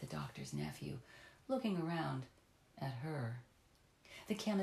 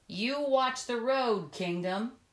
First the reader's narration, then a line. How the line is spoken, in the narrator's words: he called out